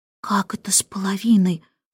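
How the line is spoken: Whispered question. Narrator (Russian): шепотом спросил Майкл у Джейн

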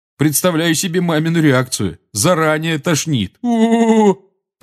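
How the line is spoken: Groaning. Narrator (Russian): простонал Джордж

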